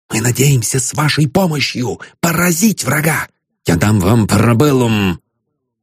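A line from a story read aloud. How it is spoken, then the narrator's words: Whispered. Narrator (Russian): шептал Остап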